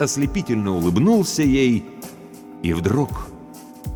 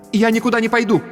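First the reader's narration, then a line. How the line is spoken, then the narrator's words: Sharp. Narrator (Russian): резко сказала Антония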